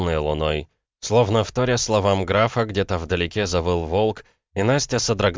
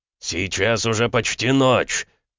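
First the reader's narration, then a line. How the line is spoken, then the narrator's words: Barked. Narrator (Russian): рявкнул Макеев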